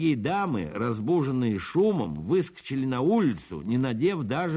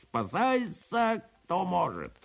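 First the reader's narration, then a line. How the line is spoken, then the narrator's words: Wild scream. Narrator (Russian): закричал диким голосом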